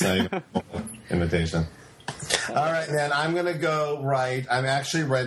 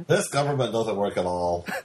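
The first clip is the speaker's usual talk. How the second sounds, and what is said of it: Imitates another person's voice. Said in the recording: “his impersonation ... That's actually pretty close ... That's my imitation of Matt doing Ed”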